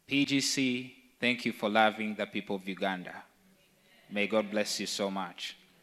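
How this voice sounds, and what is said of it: Ugandan English accent. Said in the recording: “you have to get used to listening to a Ugandan accent right now for the next couple of minutes”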